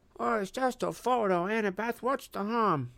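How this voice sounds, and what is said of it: Bad imitation of another's voice. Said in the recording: “In a bad imitation of my voice”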